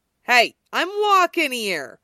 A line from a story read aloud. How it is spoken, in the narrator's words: Wade yelled when somebody banged into him with her purse